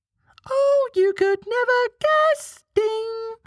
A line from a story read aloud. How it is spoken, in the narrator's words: cried